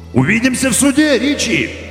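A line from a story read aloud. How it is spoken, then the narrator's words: Friendly shout. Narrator (Russian): самым доброжелательным голосом крикнул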